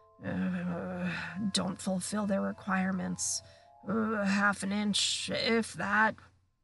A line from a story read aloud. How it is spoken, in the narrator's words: Nearly headless Nick, The ghost of Gryffindor Tower, morosely, muttering under his breath